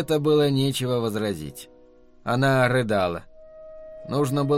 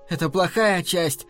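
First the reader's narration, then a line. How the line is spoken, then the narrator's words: Shouting. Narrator (Russian): закричала она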